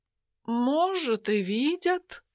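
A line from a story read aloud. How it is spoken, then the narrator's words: Philosophical tone. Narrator (Russian): Философским тоном произнес он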